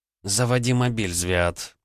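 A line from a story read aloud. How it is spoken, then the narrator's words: Through clenched teeth. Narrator (Russian): процедила Рита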